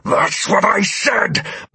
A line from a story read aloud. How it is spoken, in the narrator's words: my familiar replied angrily